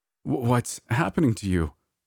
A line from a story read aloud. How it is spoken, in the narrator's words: I stammered, unsure of what to do